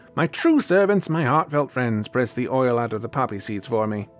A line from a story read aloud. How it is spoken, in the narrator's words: the old woman shouted